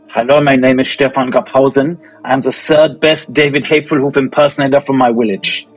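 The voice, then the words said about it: Character voice of Stefan. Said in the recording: “Can you just do one sentence to Stefan? Bring him back.”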